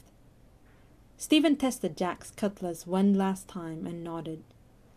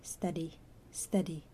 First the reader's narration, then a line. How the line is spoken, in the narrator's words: Jack murmured